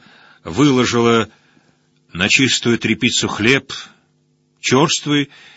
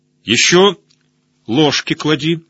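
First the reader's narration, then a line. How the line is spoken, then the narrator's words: Stern. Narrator (Russian): строго сказал я Надеже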